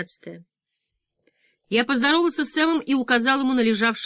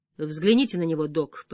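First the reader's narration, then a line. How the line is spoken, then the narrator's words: Muttering. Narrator (Russian): пробормотал я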